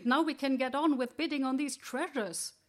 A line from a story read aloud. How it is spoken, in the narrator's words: someone exclaimed